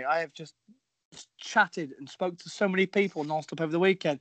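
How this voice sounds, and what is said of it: Hoarse, strained voice. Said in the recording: “my voice is really struggling. I've had no voice since Monday.”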